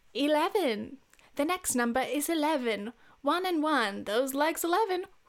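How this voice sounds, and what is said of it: Weak put-on British accent. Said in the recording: “this is a terrible British accent. I will never get better at my British accent.”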